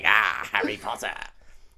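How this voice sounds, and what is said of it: Imitates another person's voice. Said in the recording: “my best Warwick Davis impression... That's very good.”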